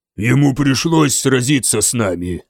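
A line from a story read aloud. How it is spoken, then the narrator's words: Growled. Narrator (Russian): прорычал Стиаппа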